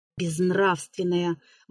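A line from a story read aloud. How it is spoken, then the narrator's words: Mechanical mutter. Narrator (Russian): бормотала она машинально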